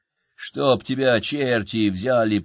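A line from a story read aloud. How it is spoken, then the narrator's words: Growl. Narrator (Russian): прорычал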